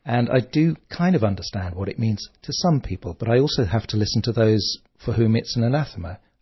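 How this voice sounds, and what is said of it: English accent. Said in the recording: “I gather your English. ... despite the accent, I'm half Irish.”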